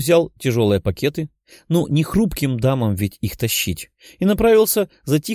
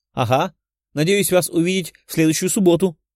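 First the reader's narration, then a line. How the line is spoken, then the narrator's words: Girl shouting after someone. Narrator (Russian): крикнула вслед 12-летняя по виду девочка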